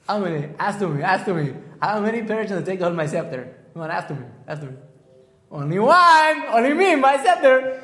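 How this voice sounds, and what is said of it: Put-on Persian accent, not so good. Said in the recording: “How's my Persian accent? Not so good?”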